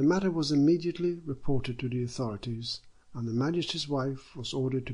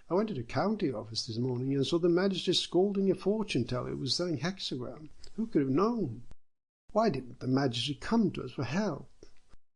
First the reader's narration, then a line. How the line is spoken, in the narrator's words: They all cried